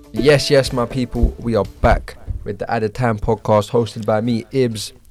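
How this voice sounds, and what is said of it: Hoarse, strained voice. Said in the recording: “My voice is gone”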